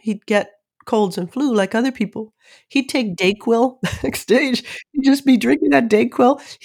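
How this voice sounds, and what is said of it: Congested voice from a cold. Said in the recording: “You can hear from my voice, I'm suffering from a cold right now”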